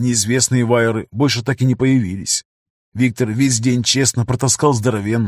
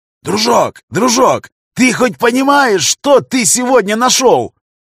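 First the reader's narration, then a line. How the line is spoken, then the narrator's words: Loud yelling. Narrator (Russian): Орал он на всю подлодку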